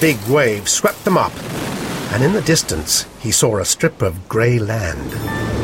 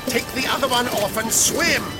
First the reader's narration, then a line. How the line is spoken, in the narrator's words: shouted the Doctor